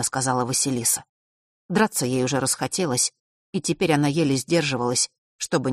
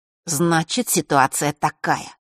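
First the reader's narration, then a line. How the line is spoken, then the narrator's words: Angry. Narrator (Russian): зло продолжил Фэш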